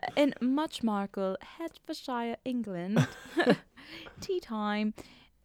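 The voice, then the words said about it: Poor attempt at British accent. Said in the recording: “No, I can't do a British accent,”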